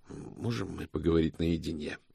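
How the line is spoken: Whisper. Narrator (Russian): прошептал Мокриц Иксу

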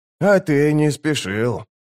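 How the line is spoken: Grumbling. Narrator (Russian): проворчал алхимик

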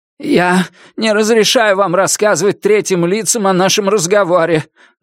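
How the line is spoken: Trembling voice. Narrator (Russian): дрожащим голосом произнес примус

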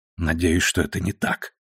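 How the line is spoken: Muttered. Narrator (Russian): пробормотала она

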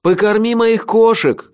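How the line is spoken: Shouting after someone. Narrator (Russian): крикнул я вслед своему коллеге

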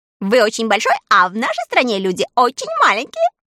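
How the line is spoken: Laughing explanation. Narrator (Russian): смеясь, объяснила сорока

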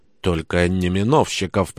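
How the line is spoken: Whisper. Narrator (Russian): прошептал мне Петр

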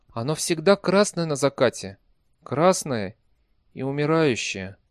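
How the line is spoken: Hollow, sad voice. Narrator (Russian): глухо и печально ответил голос Глэдии

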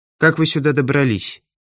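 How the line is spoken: Plain question. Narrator (Russian): спросила Ирина

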